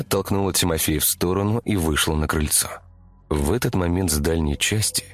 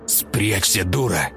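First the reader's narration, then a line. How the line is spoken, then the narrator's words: Hissed from darkness. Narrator (Russian): прошипел Тимофей из темноты дверного проема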